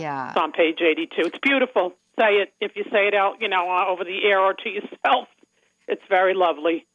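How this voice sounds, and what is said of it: Long Island accent. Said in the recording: “nobody wants to hear the Long Island accent.”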